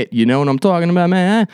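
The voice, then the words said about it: Attempted New Jersey accent. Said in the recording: “I don't know if that was a New Jersey accent or not. I've never been there”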